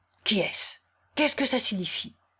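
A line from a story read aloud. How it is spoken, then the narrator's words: Low angry murmur. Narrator (French): murmura-t-il d'une voix basse mais courroucée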